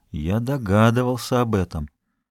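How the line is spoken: Irresistible whisper. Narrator (Russian): Жорж не мог удержаться, чтобы не прошептать

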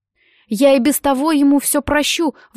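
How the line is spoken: Pained exclamation. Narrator (Russian): воскликнул Томми, которому было гораздо тяжелее видеть унижение смелого Дэна, чем робкого Нета

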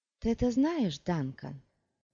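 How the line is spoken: Soft, reasoning, as to child. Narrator (Russian): Он заговорил мягко и рассудительно, как с ребенком

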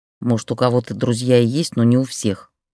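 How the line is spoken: Grumbled, turned away. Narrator (Russian): проворчала Ксения, тоже не поворачиваясь

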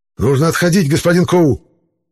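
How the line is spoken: Hoarse shout. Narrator (Russian): хрипло выкрикнул боевик

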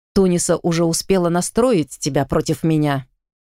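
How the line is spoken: Smirking snort. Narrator (Russian): хмыкнул Ликан

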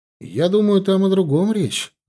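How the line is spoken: Timid interjection. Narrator (Russian): робко встрял я

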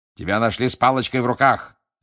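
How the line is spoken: Barked. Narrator (Russian): рявкнул мистер Диггери

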